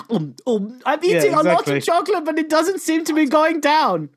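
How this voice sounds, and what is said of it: Put-on German accent. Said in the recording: “that German accent”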